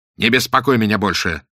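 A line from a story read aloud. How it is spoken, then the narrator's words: Snapping irritably. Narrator (Russian): огрызнулся он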